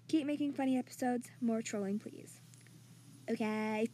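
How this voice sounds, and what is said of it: Speaks in a put-on accent. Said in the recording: “I don't know why I'm randomly talking in an accent.”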